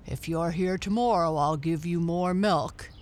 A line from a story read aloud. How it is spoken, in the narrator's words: said the man